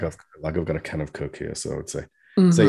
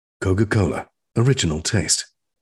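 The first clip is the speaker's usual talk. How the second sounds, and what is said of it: Radio announcer voice. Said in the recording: “say in this kind of accent ... that kind of, you know, radio voice”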